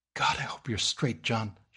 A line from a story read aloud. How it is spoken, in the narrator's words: gasped